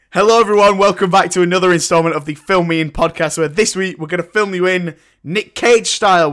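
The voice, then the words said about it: Raspy voice from a cold. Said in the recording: “My voice is a bit raspy ... I've got a bit of a cold ... a raspy voice from a cold”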